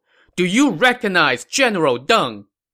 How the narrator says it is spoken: This young man shouted across the field

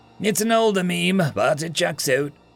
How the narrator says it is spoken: Casey chuckled

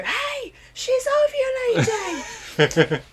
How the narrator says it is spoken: Bridget screaming through the window

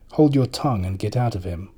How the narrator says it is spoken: spoke sharply

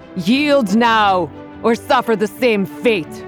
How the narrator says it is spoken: shout

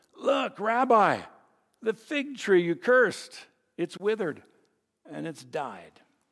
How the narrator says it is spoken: he exclaimed

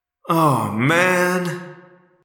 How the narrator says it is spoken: I moaned

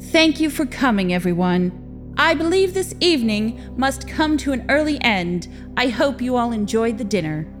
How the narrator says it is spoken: she said, her voice ringing with authority, even though her words were hollow

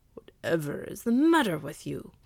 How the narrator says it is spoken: growled Blackfoot

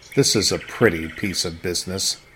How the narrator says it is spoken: muttering

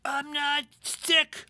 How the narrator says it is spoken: I croak yelled

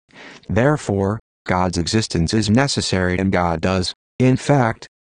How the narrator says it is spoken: said

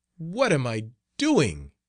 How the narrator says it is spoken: he cried

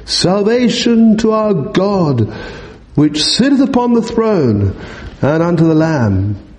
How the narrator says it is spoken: cried with a loud voice, saying

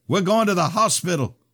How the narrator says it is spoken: Father yelled at me

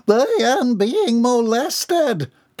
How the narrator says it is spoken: came the muffled shriek

